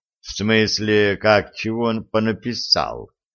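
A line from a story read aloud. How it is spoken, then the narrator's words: Neutral questioning tone. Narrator (Russian): Нейтральным тоном переспросил Виталий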